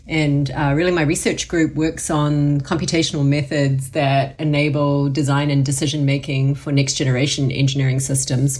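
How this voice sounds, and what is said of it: New Zealand accent. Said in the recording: “her awesome accent ... born and raised in New Zealand”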